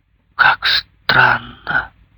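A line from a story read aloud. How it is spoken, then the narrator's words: Mumbling. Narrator (Russian): бормотала она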